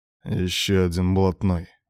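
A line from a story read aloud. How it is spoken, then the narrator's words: Through clenched teeth. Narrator (Russian): процедил Девятаев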